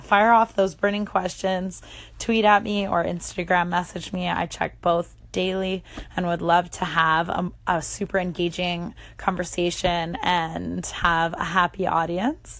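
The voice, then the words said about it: Canadian accent. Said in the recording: “the Canadian accent”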